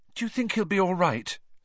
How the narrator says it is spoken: said Hermione nervously

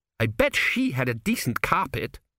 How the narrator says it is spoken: snapped

